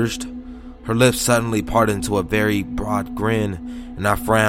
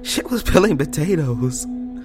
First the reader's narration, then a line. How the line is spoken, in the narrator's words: she giggled, her eyes wider